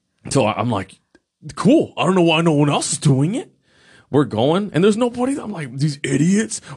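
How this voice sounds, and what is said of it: Usual voice. Nothing is said of it.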